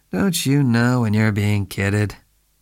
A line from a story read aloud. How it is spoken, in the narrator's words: Spade asked lazily